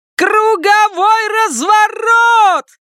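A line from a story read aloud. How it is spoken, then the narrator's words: Shouting. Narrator (Russian): кричала Конни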